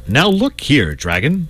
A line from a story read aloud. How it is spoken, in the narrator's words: said the saint firmly